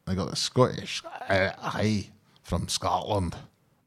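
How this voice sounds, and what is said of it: Terrible put-on Scottish accent. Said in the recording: “That's a terrible Scottish accent”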